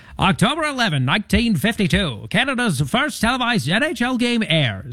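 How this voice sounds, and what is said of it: Old-timey radio announcer voice. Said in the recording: “your old-timey radio voice for hockey ... the old-timey radio voice”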